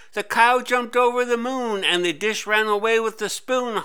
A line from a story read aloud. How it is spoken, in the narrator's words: Harry shouted